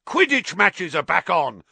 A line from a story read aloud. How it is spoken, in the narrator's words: roared Wood excitedly